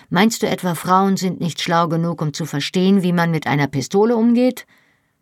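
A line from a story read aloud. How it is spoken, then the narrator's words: Sarcastic. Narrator (German): sagte ich sarkastisch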